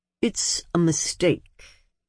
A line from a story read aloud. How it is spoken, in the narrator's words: said in his dry voice